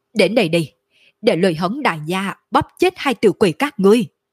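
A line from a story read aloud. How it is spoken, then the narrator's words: Ferocious, roaring loudly. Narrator (Vietnamese): Lôi Hống trên mặt lộ ra vẻ dữ tợn, trong mắt lộ ra chiến ý đậm đặc, cao giọng gào thét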